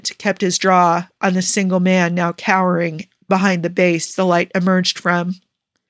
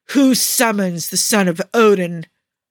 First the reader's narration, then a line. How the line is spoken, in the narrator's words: someone bellowed